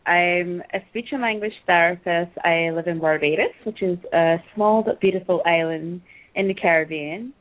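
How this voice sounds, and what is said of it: Caribbean-accented English. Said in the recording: “you had a really cool accent”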